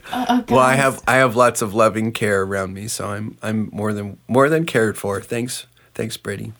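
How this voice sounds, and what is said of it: Sick-sounding voice with a cold. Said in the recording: “I was struggling with a bit of a cold, and I sound worse than I feel ... So I sound terrible.”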